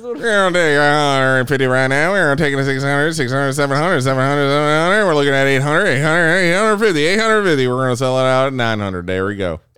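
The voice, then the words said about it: Fast auctioneer chant. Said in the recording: “Can you do the auctioneer voice?”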